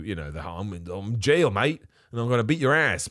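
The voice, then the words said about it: Badly done put-on accent. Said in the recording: “That is the worst accent ever.”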